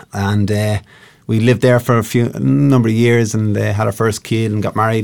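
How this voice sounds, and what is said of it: Slight Irish accent. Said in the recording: “If they could see me, they'd know I'm Irish... my accent. Have I an accent?... Well, just a wee one.”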